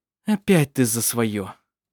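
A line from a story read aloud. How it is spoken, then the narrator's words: Sigh. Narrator (Russian): вздохнул Петер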